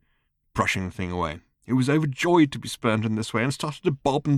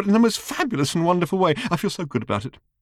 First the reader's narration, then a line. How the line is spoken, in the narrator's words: squealed the little robot